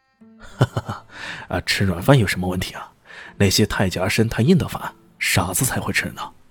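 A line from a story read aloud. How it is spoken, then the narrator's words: Smiling retort. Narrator (Chinese): 李炫笑眯眯的圆话奉还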